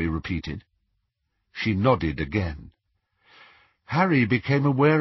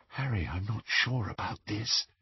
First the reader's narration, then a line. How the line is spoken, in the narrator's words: breathed Hermione